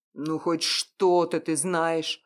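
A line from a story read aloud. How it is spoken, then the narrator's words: Growling. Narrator (Russian): рыкнул Ян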